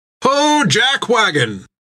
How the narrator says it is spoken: cried Ned with a laugh

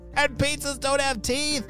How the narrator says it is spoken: she shouted

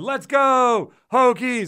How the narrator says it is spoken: they're going to yell it back

